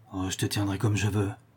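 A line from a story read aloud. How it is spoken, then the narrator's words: Schoolmaster murmuring in vault. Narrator (French): murmura le maître d'école au fond du caveau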